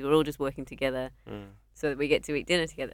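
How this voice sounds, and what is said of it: Strong UK accent. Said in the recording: “your accent's still strong. You've still got a good accent.”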